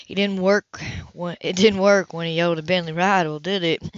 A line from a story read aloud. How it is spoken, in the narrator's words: He chuckled